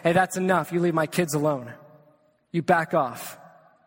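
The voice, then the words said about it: Stern authoritative dad voice. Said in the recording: “I have to pull out the dad voice”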